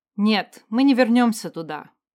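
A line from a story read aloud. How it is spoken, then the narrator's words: Firm voice. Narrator (Russian): в третий раз произнесла я твердым голосом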